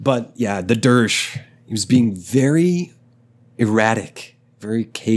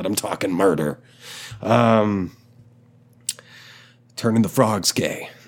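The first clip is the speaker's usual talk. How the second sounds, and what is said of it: Alex Jones impression. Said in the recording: “that was my impression of um, Alex Jones”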